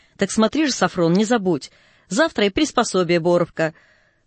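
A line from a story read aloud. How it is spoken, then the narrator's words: Loud speech. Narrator (Russian): отец громко сказал Сафрону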